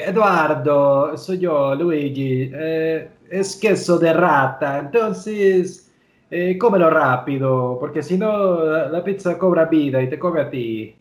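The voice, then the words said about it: Put-on Argentine-Italian accent. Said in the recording (Spanish): “¿Es un argentino o que estás.? ... mi mejor imitación de, de hablar italiano ... no sé de qué región de Italia es eso ... es una combinación entre eh, argentino-italiano”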